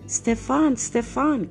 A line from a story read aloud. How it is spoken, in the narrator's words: cried the princess